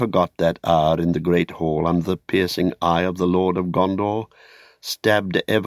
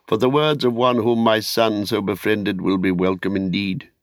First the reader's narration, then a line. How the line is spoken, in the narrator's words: said Denethor, half kindly, half mockingly